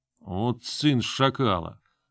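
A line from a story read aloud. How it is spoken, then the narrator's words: Cursing through teeth. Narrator (Russian): Сквозь зубы выругался мужик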